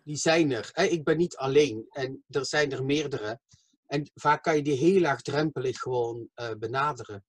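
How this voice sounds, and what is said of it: Southern Belgian Dutch accent, soft G. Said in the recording (Dutch): “je hebt een zuidelijk accent ... ik heb een zuidelijk, want ik kom, vanuit, ik kom uit België ... ik kom van België, Slimburg ... mijn zachte G”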